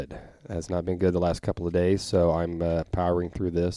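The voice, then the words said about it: Rough, sick-sounding voice. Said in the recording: “I'm under the weather a little bit here. My voice has been not good ... my voice is all over the place”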